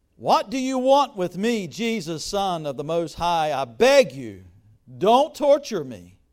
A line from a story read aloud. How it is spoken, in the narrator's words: he cried out and fell at his feet, shouting at the top of his voice